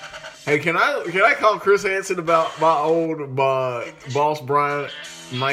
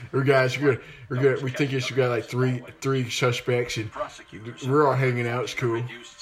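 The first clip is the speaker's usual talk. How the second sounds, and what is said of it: Gary Busey impression. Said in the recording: “my Gary Busey impression”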